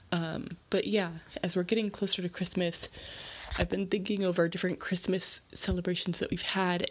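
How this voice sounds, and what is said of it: Nasal, stuffed-up sick voice. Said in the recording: “my voice sounds a little strange, it's because I've been sick for the past couple of days ... I will not sound so nasally and stuffed up”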